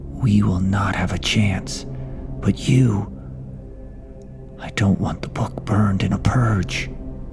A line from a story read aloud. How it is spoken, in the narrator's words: Berkshire whispered to me